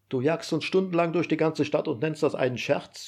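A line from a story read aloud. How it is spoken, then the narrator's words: Shouting. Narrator (German): schreit Heiner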